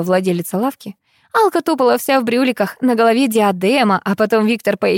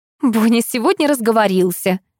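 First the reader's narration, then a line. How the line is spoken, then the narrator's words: Laughing. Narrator (Russian): засмеялась Лариса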